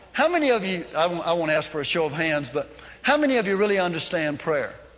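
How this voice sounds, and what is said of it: Accent sounding like Chicago or New Jersey. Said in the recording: “from the accent you probably thought I was from Chicago and New Jersey”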